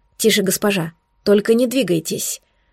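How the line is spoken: Muffled, very resolute. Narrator (Russian): Глухо, но очень решительно произнес Эдвин

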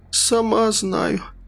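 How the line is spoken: Hoarse. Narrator (Russian): хрипло сказала она

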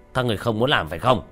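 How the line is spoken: Fat man shouting. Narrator (Vietnamese): tên mập nhìn bốn người không muốn động thủ quát lên

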